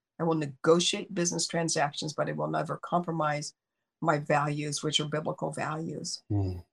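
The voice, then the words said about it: Congested voice from a cold. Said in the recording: “You guys can tell I've got a cold. I'm fighting this cold.”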